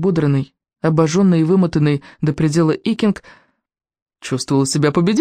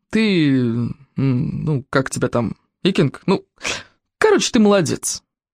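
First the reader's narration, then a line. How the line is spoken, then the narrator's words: Grumbling. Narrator (Russian): пробурчал Коварняк Гостедав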